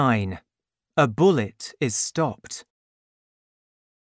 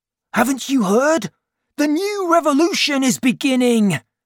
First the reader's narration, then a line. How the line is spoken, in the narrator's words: Courfeyrac said excitedly